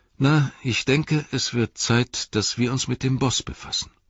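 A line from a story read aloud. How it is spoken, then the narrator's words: Sighing. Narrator (German): sagte Frodo mit einem Seufzer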